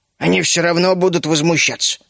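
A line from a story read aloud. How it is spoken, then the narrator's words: Grumbled mutter. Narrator (Russian): буркнул Бертрам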